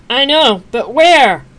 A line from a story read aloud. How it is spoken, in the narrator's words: Pony yelled back, wrestling with the other horse